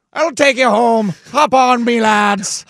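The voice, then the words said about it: Put-on Irish accent. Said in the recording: “Irish dudes, too, with the accent.”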